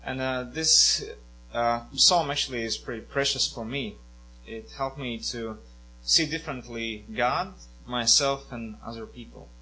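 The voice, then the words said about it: Latvian accent. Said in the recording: “I'm a Latvian, so forgive me for my accent.”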